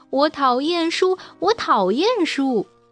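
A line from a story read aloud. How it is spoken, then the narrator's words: Stamping, shouting. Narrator (Chinese): 米娜总会跺着脚尖，叫道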